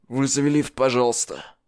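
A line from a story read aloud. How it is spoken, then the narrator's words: Hoarse dry request. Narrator (Russian): попросил Аарон хриплым сухим голосом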